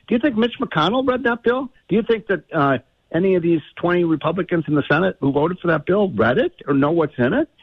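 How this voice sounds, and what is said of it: Angry, heated speaking tone. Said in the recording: “If I sound a little angry, I am”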